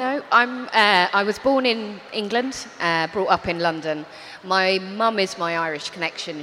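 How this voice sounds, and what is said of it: Non-Dublin accent. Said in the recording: “your accent is not from Dublin”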